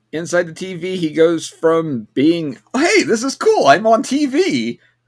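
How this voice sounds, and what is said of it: Decent imitation of a cartoon character. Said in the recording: “that actually wasn't a bad imitation of his voice”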